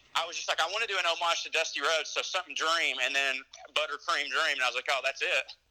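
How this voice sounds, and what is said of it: Southern US Georgia accent. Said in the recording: “he's from Georgia, what a cute accent”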